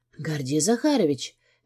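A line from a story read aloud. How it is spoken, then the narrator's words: Quiet, nearly voiceless. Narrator (Russian): говорю я тихо, голоса почти нет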